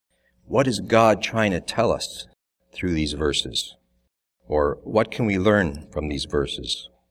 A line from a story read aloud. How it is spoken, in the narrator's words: One of the young men from Japan answered in his gentle tone, in his broken English